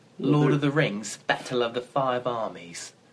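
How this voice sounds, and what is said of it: Put-on British accent. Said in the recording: “you have to say that in a British accent... I think my accent is rather good”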